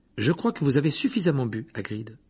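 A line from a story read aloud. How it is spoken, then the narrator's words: Decisive tone. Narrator (French): dit Hermione d'un ton décidé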